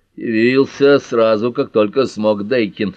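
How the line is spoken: Grumbling. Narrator (Russian): ворчал доктор Уиллоби

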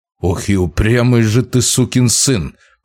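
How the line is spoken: Through gritted teeth. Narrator (Russian): процедил Вяземский

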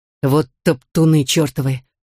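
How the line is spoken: Furious hiss. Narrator (Russian): яростно прошипел Мерлин

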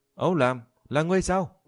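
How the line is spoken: Sudden shout. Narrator (Vietnamese): Diệp Chi Thu đột nhiên hét lên

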